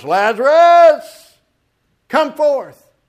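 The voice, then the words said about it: Loud proclaiming voice. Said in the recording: “in a loud voice”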